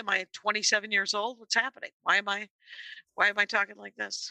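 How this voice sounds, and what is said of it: Scratchy voice with vocal fry. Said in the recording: “my voice has been always scratchy. It's been this kind of scratchy, which... What am I, vocal fry?”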